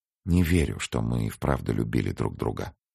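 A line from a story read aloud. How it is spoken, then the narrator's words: Muttering. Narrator (Russian): пробормотала Ева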